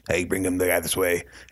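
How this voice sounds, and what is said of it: Poor impression of Sykes. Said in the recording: “the Sykes ... this is a terrible impression”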